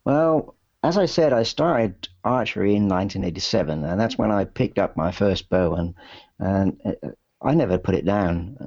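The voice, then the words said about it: English accent, Southwest and London mix. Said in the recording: “there is a little bit of kind of the Southwest, but also kind of a little bit of London, kind of home counties area in your accent”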